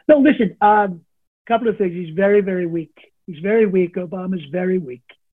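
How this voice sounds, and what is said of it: Donald Trump impression. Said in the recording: “in the voice of Donald J. Trump ... his Trump impersonation”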